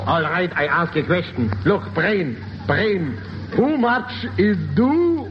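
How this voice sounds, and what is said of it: Put-on German accent. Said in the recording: “An accent, yes ... I'm a German Indian.”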